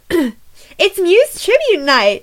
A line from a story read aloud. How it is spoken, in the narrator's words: Starla shouted from her corner of the bar